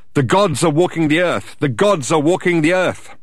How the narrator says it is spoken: He started to shout out

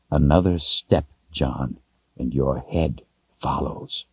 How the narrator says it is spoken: In a voice barely more than a whisper, but so deadly cold it made John stop breathing, he said

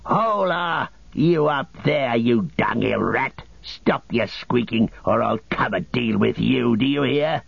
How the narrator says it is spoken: a snarling orc voice rang out

